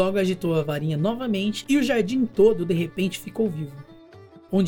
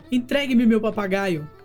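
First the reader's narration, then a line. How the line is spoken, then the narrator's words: Pleading shout. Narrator (Portuguese): O mago gritou implorando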